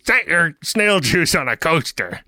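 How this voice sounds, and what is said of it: Impression of Brunt. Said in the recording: “Is that a good Brunt impression? I don't even really know what he sounds like.”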